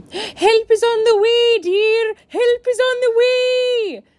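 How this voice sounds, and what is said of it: Mrs. Doubtfire character voice impression. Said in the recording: “I can do a really good Mrs. Doubtfire impression ... my very good impression”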